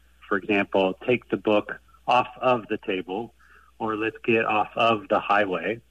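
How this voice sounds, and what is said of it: American Ohio accent, not British. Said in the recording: “grew up speaking British English. And from my accent, you can tell I didn't. I grew up in Ohio.”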